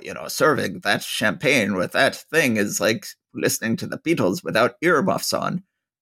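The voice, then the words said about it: Bad Sean Connery impression. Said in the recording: “my terrible, terrible Sean Connery imitation.”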